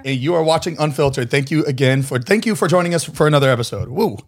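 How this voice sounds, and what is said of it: Hoarse, rusty voice. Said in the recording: “I lost my voice again. ... A little rusty. ... Very rusty.”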